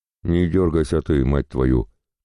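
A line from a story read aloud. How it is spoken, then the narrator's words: Father growling. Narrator (Russian): тут же зарычал папа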